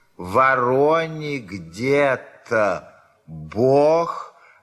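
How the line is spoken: Loud drawn-out dictation. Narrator (Russian): говорила она громко и протяжно, вероятно, диктуя

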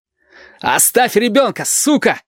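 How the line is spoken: Strained shout. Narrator (Russian): надсадно крикнул Валентин

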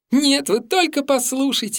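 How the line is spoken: Girl's ringing laughter. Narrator (Russian): звонко расхохоталась девочка

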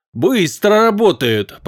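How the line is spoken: Grumble. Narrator (Russian): проворчал Дейнур

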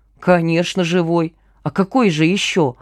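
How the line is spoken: Grumble. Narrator (Russian): буркнул Пашка

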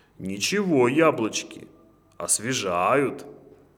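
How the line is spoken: Roaring. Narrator (Russian): проревел

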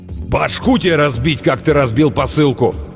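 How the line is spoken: Furious bark, huge man. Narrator (Russian): рявкнул огромный разъяренный детина

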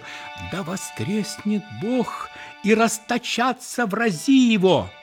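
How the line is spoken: Trembling voice. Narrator (Russian): дрожащим голосом он начал

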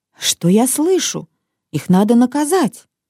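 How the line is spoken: Mother exclaiming. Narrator (Russian): Мама воскликнула

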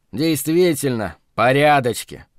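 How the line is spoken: Snorting chuckle. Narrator (Russian): хмыкнул Маримонов

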